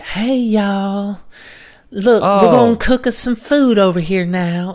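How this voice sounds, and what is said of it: Put-on Southern Florida accent. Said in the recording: “She's got the Southern Florida accent.”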